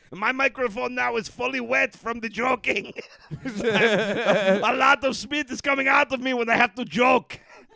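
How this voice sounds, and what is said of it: Put-on comedic clown accent. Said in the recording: “My traditional clown accent.”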